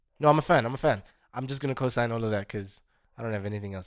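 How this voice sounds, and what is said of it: Strained, worn-out voice. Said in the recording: “As you can hear, my voice is strained out”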